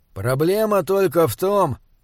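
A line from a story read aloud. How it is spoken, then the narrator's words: Gloomy. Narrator (Russian): мрачно произнес он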